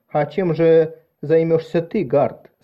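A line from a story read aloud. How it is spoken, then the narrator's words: Plain. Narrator (Russian): спросила Марис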